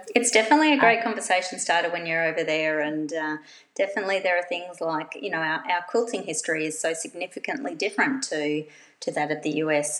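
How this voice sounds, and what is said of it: Australian accent. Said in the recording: “this accent, ... wow, Australia”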